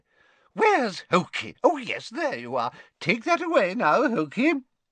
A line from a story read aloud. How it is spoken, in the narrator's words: said Hepzibah happily